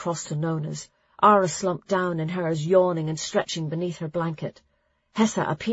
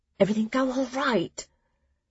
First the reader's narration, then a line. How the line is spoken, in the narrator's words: Clara whispered close enough to Nona's ear to make it tingle